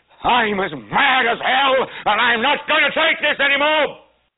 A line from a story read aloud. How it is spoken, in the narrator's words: yell